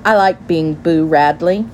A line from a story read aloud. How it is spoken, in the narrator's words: she said